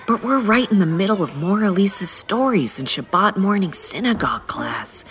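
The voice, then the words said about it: Whispering. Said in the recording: “sorry I'm whispering”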